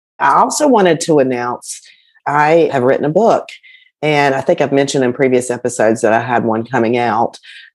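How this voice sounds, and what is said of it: Voice weakened from illness. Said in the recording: “I am overcoming an illness, so my voice is not back to 100% yet”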